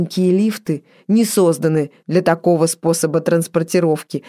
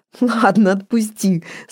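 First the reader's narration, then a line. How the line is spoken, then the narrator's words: Laughing request. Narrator (Russian): смеясь попросила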